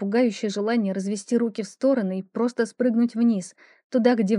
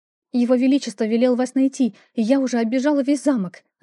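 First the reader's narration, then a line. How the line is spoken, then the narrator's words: Rapid chatter. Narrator (Russian): затараторила она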